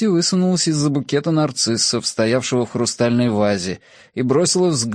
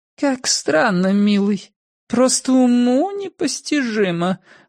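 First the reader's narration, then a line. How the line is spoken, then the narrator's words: Affected creaky voice. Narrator (Russian): манерно проскрипела Мисси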